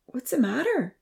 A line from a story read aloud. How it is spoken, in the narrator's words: She asked sleepily